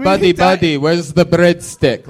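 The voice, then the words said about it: Put-on Armenian accent. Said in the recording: “it hurts a little more coming from an Armenian accent”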